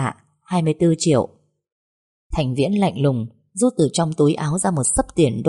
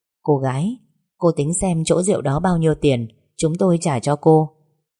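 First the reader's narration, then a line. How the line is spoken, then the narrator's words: Smiling offer. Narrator (Vietnamese): Hoàng Minh Nghiên mỉm cười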